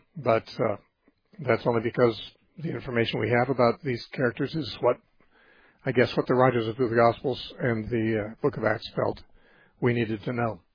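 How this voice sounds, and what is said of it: Strained, worn-out voice. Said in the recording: “my voice is on the edge here today”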